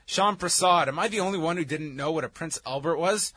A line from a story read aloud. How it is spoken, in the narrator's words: I screamed when I Googled it